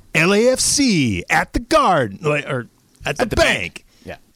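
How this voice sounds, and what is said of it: Weak impression of announcer Mario. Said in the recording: “do a Mario impression ... Mario's so smooth ... Maybe I could do the cadence, but I can't do an actual impression ... it's terrible”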